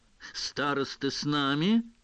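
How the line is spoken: Mocking tone. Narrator (Russian): сказал Фред, насмешливо глядя на Рона и Гермиону

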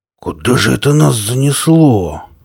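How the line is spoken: Bewildered drawl. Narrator (Russian): растерянно протянул он

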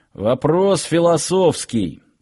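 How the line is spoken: Grumbling guard. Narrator (Russian): пробурчал один из охранников

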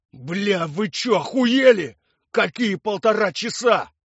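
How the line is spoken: Roaring. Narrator (Russian): взревел Виктор Иванович

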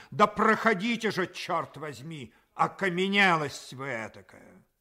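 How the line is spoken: Irritated shout. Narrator (Russian): он еще более раздраженный крикнул

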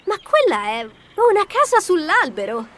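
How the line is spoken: Exclaimed. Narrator (Italian): esclamò Pamela

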